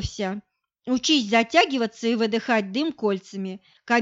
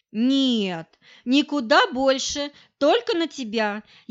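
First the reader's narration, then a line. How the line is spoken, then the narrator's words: Laughing. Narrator (Russian): Я рассмеялась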